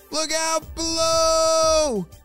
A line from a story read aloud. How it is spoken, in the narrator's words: shouted Ava